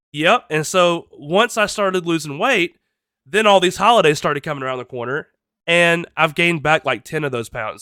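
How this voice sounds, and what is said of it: Nasal congested voice. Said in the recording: “my voice is a little bit uh, nasally ... my allergies kick in or a cold of some kind”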